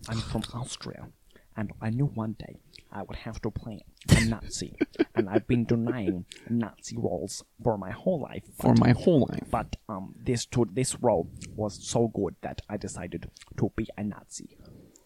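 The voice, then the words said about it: Austrian-accented impression of another person. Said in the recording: “he's an Austrian accent, not German... he talks like this... my impression of Christoph Waltz... I think I got the mouth sounds right”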